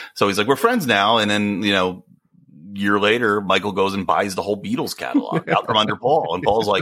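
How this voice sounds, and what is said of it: Usual voice. Nothing is said of it.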